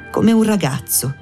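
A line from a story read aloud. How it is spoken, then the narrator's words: Unsteady voice. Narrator (Italian): la donna disse con voce malsicura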